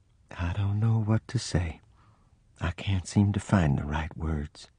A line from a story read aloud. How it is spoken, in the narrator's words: As if she were talking to someone far away, I heard her say in a low voice